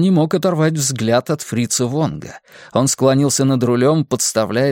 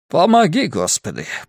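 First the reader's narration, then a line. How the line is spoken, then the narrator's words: Muttered. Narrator (Russian): пробормотал он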